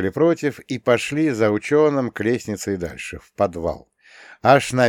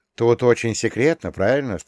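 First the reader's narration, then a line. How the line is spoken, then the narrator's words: Plain question. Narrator (Russian): спросил я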